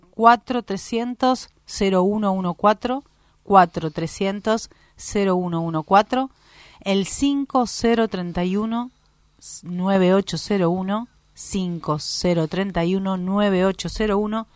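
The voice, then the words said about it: Polished radio announcer voice. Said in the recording (Spanish): “tenés voz de locutora”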